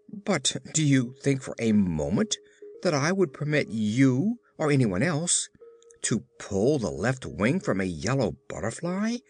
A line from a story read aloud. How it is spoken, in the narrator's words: demanded the Tin Woodman sternly